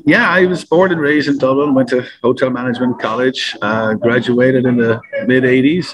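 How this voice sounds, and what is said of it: Irish accent. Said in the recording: “You are from Ireland, as you most folks can probably tell from your voice.”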